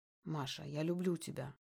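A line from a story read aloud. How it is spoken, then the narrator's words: Barely audible whisper. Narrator (Russian): говорит Сергей тихо, так тихо, что мне кажется, что мне это послышалось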